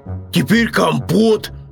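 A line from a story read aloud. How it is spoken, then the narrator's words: Little bear shouting. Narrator (Russian): крикнул медвежонок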